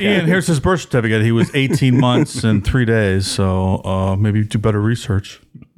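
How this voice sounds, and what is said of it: Impression of a nitpicking listener. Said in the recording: “trailing off into like my voice impression of a listener”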